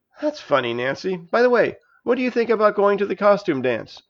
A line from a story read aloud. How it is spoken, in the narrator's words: I asked in my most casual voice